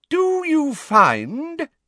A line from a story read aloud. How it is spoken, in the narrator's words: said Professor Umbridge in a ringing voice to Pansy Parkinson